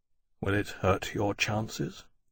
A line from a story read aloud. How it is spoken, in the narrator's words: he asked quietly